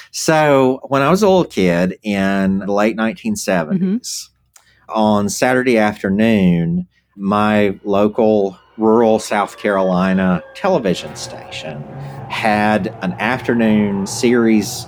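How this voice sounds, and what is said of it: Obvious Southern US accent. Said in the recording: “you might maybe be from the South ... you have a very subtle accent. just kidding. It's very obvious”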